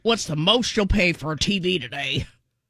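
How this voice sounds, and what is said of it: Doofy strained imitation of a man. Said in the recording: “I said it really doofy like that, too. ... Your impression of a man kills me. ... Sound like you're constipated.”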